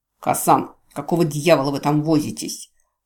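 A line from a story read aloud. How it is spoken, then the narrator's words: Growled. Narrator (Russian): прорычал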